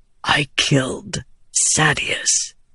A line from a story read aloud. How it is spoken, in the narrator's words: Adolin whispered